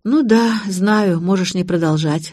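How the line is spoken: Sighing. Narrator (Russian): вздохнула я

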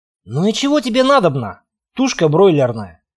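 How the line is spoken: Wry snort. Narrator (Russian): хмыкнул

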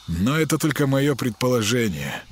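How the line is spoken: Sigh. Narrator (Russian): ДПСник вздохнул

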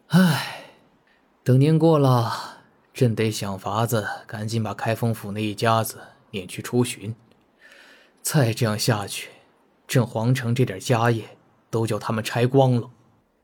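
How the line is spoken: Sighing, muttering to himself. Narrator (Chinese): 赵祯叹了口气，自言自语

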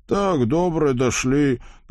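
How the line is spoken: Breathless, Bulgarian-like accent. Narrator (Russian): почти по-болгарски выдохнул Вакула, хотя, по чести говоря, до его маленькой кузницы они скорее бежали, чем шли

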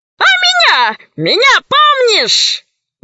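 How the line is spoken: High-pitched shout. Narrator (Russian): высоким голосом закричал танкист

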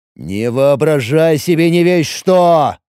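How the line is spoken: Angry growl. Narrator (Russian): Зло прорычал Улер

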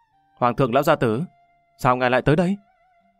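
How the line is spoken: Smiling greeting. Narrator (Vietnamese): mỉm cười chào đón

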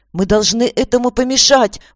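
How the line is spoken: Exclamation. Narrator (Russian): воскликнула Аня

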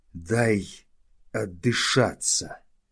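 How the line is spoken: Breathless, strained. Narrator (Russian): еле выдавил из себя толсторог

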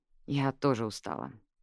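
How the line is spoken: Sigh. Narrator (Russian): вздохнула Джаз

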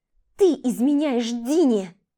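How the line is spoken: Venomous hurt hiss. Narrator (Russian): Шипело одно, а вся фраза пропитана ядом обиды

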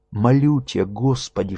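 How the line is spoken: Fervent whisper. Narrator (Russian): шептал истово

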